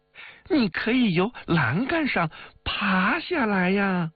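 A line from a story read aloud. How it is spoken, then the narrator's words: Laughing. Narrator (Chinese): 王玉笑道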